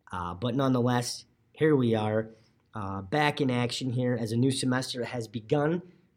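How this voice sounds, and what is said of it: Slightly hoarse, raspy voice. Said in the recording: “voice is a little hoarse ... kind of lost it ... if I'm a little raspy”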